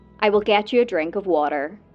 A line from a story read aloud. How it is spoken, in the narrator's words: the same woman can be heard calmly stating